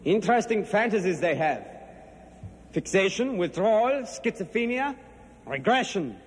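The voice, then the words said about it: Put-on German accent. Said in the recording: “Augur has this German accent, which I believe fades in and out”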